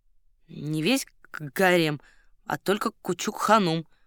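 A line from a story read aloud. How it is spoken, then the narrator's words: Reluctant mumble. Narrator (Russian): пробурчал титулярный советник, явно не желая углубляться в подробности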